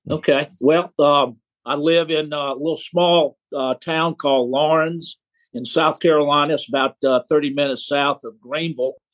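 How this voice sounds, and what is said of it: Southern American accent. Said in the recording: “a fellow Southern boy ... I always appreciate a good Southern accent.”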